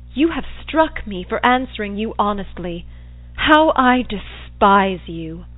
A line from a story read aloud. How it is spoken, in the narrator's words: When I had recovered a little from the effects, I exclaimed